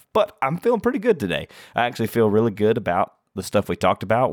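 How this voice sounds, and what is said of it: Deeper than usual, slightly sick voice. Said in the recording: “You might notice my voice sounds a little bit deeper today ... I have been a little bit sicky though”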